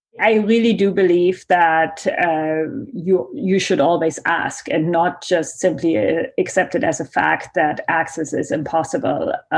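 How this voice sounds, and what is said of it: German accent. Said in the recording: “My accent that you hear is German.”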